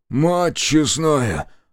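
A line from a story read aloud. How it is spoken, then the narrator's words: Stunned exhale. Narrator (Russian): выдохнул Борис, на миг опешив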